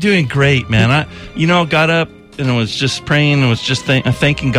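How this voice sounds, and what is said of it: Usual voice. Nothing is said of it.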